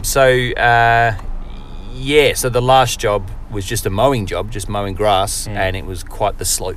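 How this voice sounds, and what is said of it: Australian accent. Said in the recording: “I can't understand the Australian accent.”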